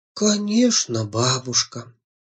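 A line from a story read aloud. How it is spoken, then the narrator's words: Quiet. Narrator (Russian): тихо сказала Жужа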